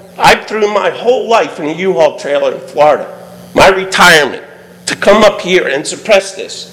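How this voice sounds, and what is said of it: Yelling, loud angry voice. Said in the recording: “sorry I'm yelling.”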